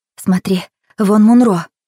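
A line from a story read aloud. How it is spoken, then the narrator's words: Excited whisper. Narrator (Russian): взволнованно шепнула Анжела Раулю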